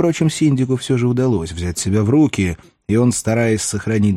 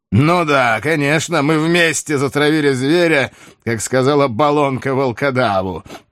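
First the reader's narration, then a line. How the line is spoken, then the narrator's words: Mocking. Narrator (Russian): промолвил насмешливо Деламарк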